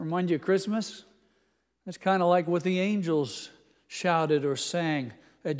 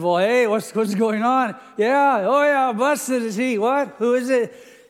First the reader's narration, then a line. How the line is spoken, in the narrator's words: shouting and rejoicing